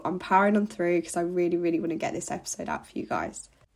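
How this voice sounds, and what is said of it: Congested voice from a cold. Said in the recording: “my voice sounds funny. I'm full of cold still.”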